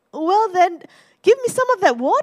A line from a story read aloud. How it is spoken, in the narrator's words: I laughed